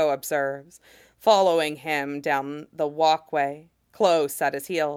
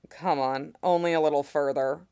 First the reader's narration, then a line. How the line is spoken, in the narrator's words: He chuckles, and says